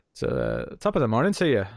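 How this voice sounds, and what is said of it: Bad put-on Irish accent. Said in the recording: “it sounded more irish ... I can't do an Irish accent ... in an Irish accent ... It's terrible.”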